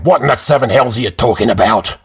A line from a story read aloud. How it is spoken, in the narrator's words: Cromdor snapped